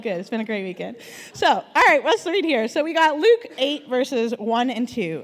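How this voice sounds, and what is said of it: Strained, worn-out voice. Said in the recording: “I've used my voice a lot this weekend... sang my heart out... my voice is a little wonderful today”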